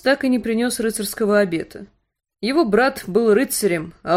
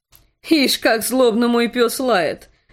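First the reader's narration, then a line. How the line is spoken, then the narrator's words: Laughing king. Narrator (Russian): засмеялся король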